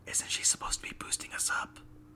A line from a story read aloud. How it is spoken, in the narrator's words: Cumin whispered to Ira